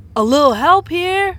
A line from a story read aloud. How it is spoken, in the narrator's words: shouted Arnez from the distance